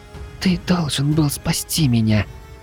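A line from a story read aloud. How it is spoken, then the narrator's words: Tearful little girl's whisper. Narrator (Russian): Едва сдерживая слёзы, прошептала малышка мне на ухо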